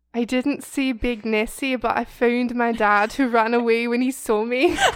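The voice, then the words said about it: Put-on Scottish accent. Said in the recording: “I'm gonna read these all in a Scottish accent, so prepare yourself.”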